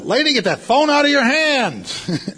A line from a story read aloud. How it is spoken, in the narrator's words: I yelled out